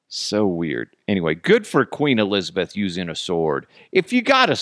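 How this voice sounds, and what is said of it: Usual voice. Nothing is said of it.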